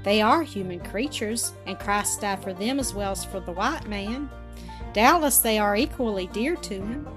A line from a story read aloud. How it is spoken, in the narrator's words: Kenneth answered with gentle gravity